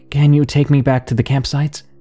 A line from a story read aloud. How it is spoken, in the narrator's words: I asked